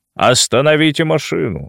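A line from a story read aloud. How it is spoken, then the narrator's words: Dry command. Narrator (Russian): сухо распорядился Рыкунин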